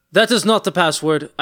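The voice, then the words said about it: Put-on character accent. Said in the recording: “I don't know why I gave him an accent. Fucking Drago's on my mind now.”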